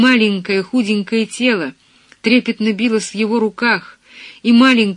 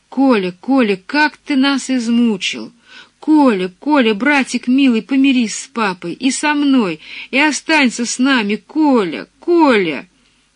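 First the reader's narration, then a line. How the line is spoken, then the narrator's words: Sobbing breathless whisper. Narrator (Russian): голос, задыхающийся от рыданий, зашептал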